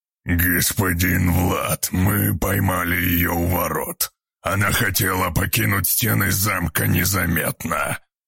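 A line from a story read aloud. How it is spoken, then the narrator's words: Wolf's growl. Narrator (Russian): прорычал волк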